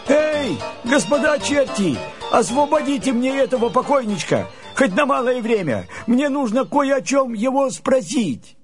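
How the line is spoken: Shout. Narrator (Russian): Андрей закричал чертям

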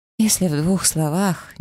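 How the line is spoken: Nervous giggle. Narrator (Russian): нервно хихикнула я

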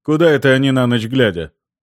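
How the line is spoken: Grumbling mutter. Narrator (Russian): буркнул Люкас

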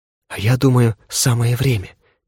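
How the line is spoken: Soft whisper. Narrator (Russian): тихо прошептала Зоя

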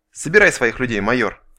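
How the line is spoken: Melancholy sigh. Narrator (Russian): Кварц тоскливо вздохнул

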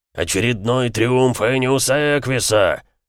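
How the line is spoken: Roaring. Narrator (Russian): взревел Эмик

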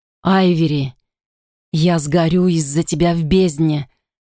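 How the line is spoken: Groaning. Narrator (Russian): простонал Итан

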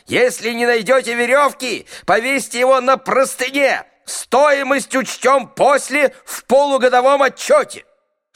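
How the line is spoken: Judge still shouting. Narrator (Russian): Судью уже сажали в карету скорой помощи, а он все кричал

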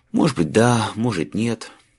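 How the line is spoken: Sigh. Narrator (Russian): вздохнул Майлз

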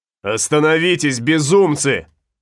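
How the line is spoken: Shouting. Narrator (Russian): закричал Флорес

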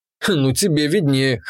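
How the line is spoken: Snorting. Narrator (Russian): хмыкнул я

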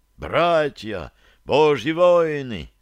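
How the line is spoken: Exclaimed. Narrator (Russian): воскликнул Краловец

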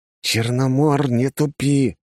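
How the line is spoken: Hissing. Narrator (Russian): прошипел я

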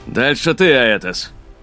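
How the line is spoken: Barked. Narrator (Russian): рявкнул Ксейден

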